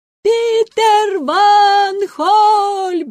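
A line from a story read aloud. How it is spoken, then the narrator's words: Crowd shouting. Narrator (Russian): закричали сотни голосов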